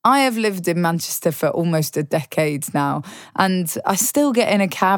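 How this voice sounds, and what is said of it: Southern English accent. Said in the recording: “You're not from round here ... I don't have a native Mancunian accent ... born and bred in the south of England”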